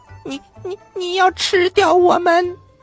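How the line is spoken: Trembling voice. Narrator (Chinese): 迪迪声音有点发抖

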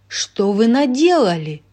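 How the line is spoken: Booming. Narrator (Russian): прогремела она

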